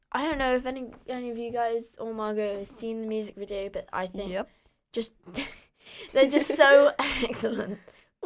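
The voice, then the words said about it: Hoarse voice from a cold. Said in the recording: “I'm losing my voice... I made it almost to the end of half term without getting a cold”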